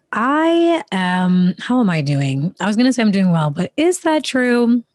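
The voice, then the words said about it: Deep, croaky, recovering voice. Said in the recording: “my voice sounds a little deeper today, that is because my voice has been going and it's slowly coming back, but it's not back to its full capacity just yet ... we're sounding a little bit like a frog”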